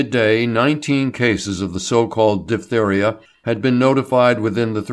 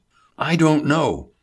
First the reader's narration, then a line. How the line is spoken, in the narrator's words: Hubert exclaimed